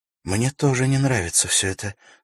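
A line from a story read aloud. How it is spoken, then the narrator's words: Worried tone. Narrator (Russian): сказала Ивенлин обеспокоенным тоном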